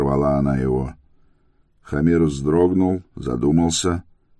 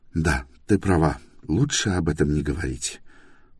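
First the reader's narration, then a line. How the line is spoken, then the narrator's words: Muttering. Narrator (Russian): пробормотал он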